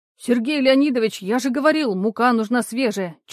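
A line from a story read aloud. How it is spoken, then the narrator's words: Almost shouting. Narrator (Russian): чуть ли не кричал Егор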